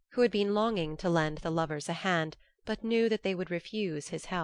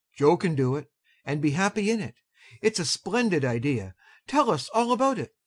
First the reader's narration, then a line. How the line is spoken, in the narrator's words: cried Mr